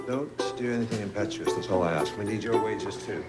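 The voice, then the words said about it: British accent. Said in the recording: “She's got a British accent.”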